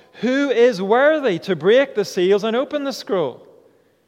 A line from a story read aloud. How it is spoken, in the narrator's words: a mighty angel proclaiming in a loud voice